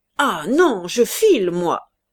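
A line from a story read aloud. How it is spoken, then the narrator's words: Stammering. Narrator (French): bégaya de la Herche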